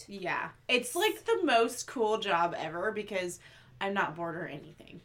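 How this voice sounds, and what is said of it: Sarcastic tone. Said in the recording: “I think that was sarcasm.”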